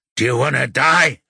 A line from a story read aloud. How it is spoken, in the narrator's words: the man grunts